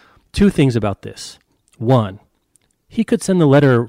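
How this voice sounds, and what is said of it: Usual voice. Nothing is said of it.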